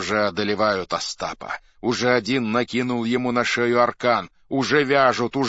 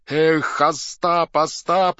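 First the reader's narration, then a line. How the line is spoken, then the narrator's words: Shout. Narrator (Russian): кричал Тарас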